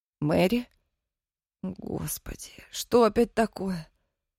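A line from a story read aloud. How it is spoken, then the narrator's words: Groaning. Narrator (Russian): простонала Дина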